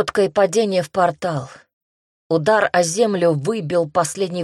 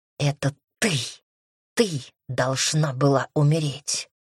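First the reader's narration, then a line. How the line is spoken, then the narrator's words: Angry hiss. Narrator (Russian): зло зашипев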